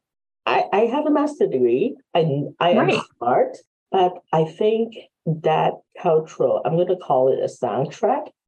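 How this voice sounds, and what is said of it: Hong Kong accent in English. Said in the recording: “Chinese American, originally from Hong Kong ... my youngest brother does not have an accent, but I do”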